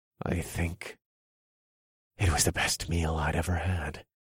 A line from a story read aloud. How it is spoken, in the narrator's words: I answered under my breath